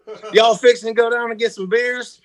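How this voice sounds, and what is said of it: Put-on Southern drawl. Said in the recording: “mutt accent... I got some draw, and there's some Midwest in there, and I got some like San Diego... Eastern Texas kind of Gulf of Mexico accent with beach slang and almost like a yeah sure you betcha Midwest... I can pull that shit off pretty quick”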